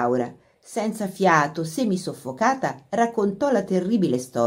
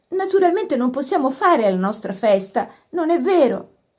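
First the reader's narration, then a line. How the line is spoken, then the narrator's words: Pleading. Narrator (Italian): supplicò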